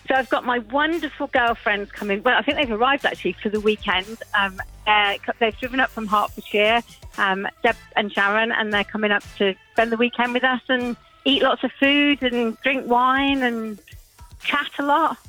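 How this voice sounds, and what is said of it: Birmingham (Brummie) English accent. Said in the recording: “your accent doesn't sound like it originated in Worcestershire ... I was actually born in Birmingham. I'm a Brummie girl.”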